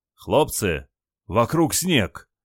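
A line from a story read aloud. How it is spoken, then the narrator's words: Surprised exclamation. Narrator (Russian): удивленно воскликнул Николай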